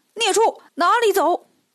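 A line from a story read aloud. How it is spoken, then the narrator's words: Loud shout. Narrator (Chinese): 八戒大喊一声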